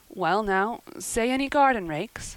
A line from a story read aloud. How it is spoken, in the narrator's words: stammered Matthew